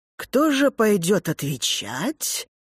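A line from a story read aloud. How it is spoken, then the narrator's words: Intriguing tone. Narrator (Russian): говорит она интригующим тоном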